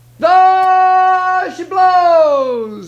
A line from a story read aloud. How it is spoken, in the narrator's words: hollered